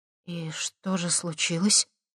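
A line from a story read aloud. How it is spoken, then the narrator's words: Timid question. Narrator (Russian): робко спросила Лера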